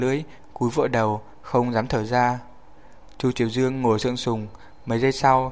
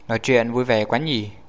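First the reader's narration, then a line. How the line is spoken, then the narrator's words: Cold questioning. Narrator (Vietnamese): lạnh lùng chất vấn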